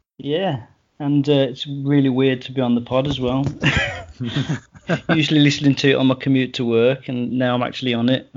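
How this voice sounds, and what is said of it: English Midlands accent. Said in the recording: “I'm going to sound awful with my Midlands accent compared to all you lot.”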